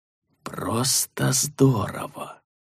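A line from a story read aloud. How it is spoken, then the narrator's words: Whisper. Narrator (Russian): Тул ... прошептал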